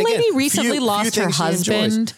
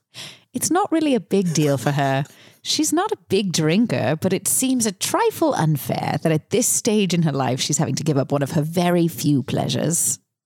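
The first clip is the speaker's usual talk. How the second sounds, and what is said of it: Put-on British accent. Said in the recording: “Should I do the accent? ... It's very British. ... very V British. But kudos to you for your superb accent.”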